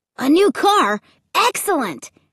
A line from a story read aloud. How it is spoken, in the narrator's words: Luke exclaimed